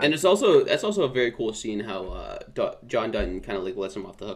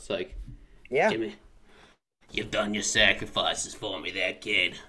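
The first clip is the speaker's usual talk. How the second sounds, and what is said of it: Pirate-like put-on accent. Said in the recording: “This is not his accent, but we're gonna go with it. ... like a pirate.”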